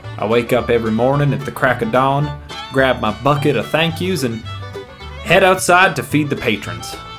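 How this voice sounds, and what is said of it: Exaggerated rural regional accent. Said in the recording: “the rural life ... my extremely accurate regional accent”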